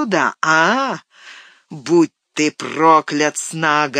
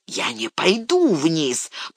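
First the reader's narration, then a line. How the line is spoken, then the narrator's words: Growl. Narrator (Russian): прорычал Снага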